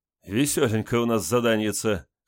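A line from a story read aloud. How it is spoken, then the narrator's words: Short guffaw. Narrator (Russian): хохотнул капитан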